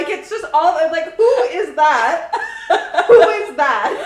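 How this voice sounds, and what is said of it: Usual voice. Nothing is said of it.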